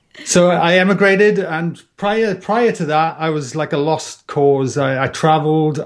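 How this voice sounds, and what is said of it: Welsh accent, somewhat softened. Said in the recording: “I'm Welsh. I just seem to tell by my tropical accent. And it's kind of softened over the years.”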